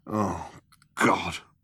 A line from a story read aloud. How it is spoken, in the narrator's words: muttered Zaphod